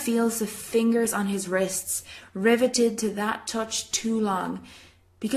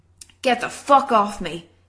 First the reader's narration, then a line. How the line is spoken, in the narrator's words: he snaps